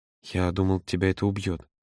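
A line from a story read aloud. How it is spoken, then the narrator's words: Barely audible. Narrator (Russian): едва слышно произнес он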